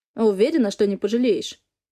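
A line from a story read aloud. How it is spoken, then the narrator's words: Spiteful, contemptuous. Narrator (Russian): Выплевывает злобно, даже презрительно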